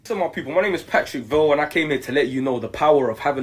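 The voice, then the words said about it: British accent. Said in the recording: “he has a British accent”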